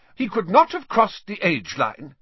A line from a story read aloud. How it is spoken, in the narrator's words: said Professor McGonagall sharply